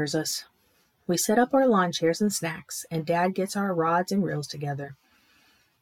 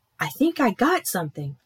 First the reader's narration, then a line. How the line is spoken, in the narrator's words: shout